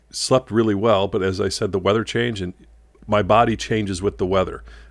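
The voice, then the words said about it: Slightly rough voice. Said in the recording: “My voice is a little rougher this morning.”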